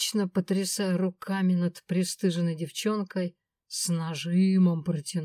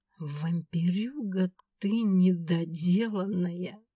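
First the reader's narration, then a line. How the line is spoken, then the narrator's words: Spat through teeth. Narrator (Russian): Процедила я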